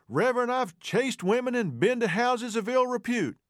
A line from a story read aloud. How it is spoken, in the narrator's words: the reverend excitedly responded